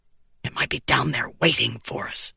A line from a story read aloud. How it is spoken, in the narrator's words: the prince hissed